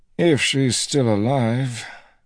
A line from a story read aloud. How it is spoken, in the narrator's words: Noel said grimly